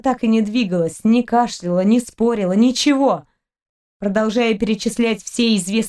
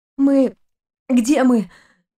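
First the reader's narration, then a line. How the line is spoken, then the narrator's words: Hoarse, coughing. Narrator (Russian): прохрипела Кристина между кашлем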